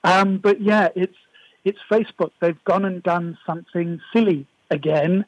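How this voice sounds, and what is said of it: Messed-up, strained voice. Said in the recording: “As you can hear, my voice is a little bit messed up.”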